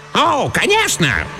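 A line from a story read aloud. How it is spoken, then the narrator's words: Squeal from below. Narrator (Russian): визгнул внизу чужой голос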